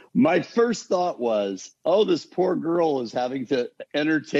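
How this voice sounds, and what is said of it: Usual voice. Nothing is said of it.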